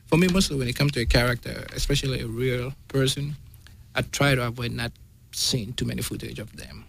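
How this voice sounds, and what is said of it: Noticeable accent. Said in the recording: “as you guys can hear, it's my biggest challenge was my accent, which I'm still working on”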